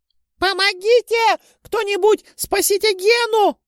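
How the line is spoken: Screaming woman. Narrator (Russian): закричала женщина с детьми

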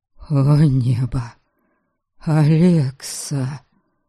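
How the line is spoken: Faint moan. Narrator (Russian): Чуть слышно простонал Дариан

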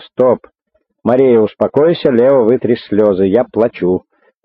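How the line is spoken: Sudden stern voice overhead. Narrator (Russian): Вдруг над головами убедительно и строго прозвучало

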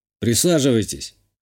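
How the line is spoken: Snorting. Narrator (Russian): хмыкнул я

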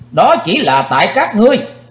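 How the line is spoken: Sudden shout. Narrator (Vietnamese): Thình lình Chí Tôn hét lên

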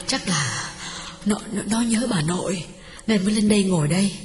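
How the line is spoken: Breathless. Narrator (Vietnamese): Hương thở hổn hển bảo chồng

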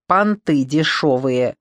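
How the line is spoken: Grumbled. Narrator (Russian): проворчал Миллер

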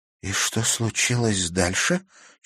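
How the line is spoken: Barely audible question. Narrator (Russian): чуть слышно спросила Катерина

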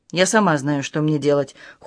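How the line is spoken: Cold reply. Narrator (Russian): холодно отозвалась

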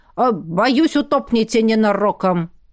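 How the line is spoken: Shouting while running. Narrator (Russian): на бегу прокричал

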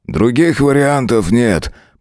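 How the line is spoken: Grumble. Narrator (Russian): проворчал Кларк

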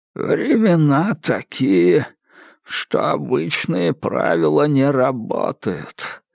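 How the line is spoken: Creaky voice. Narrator (Russian): проскрипел Грегор

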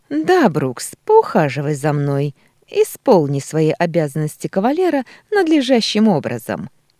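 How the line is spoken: Cheerful laughing. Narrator (Russian): Весело смеется она

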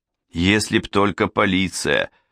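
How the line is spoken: Irritated curt remark. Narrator (Russian): раздраженно бросил Джала

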